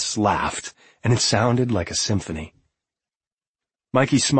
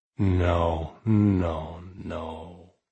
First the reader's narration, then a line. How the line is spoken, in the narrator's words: Mikey said, in the slowest, thickest voice he had ever heard come forth from himself